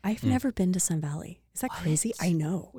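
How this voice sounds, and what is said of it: Put-on sexy voice. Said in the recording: “I just got into my sexy voice right there”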